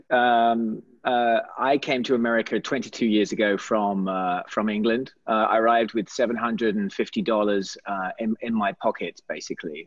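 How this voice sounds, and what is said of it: English accent. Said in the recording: “you have an accent”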